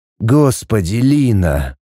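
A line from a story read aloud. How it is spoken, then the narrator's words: Groaning. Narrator (Russian): простонал он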